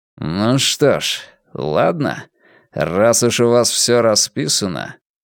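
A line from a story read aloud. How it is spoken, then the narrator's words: Muttered through teeth. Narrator (Russian): Ломбард процедил сквозь зубы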